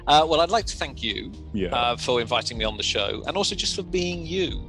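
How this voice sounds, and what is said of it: English accent, dry sarcastic-sounding delivery. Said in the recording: “having an English accent ... a voice which sounds like everything I say sounds sarcastic ... an Eric Idle-like or John Cleese-like delivery”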